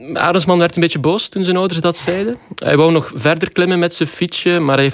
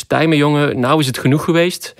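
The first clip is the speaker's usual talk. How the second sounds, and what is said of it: Good put-on Dutch accent. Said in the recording (Dutch): “wat een goed Nederlands accent”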